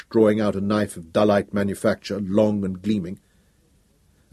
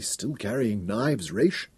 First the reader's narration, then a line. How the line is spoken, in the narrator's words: Selden said weakly